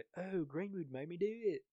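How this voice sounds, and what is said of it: Put-on British accent. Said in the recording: “Great British accent”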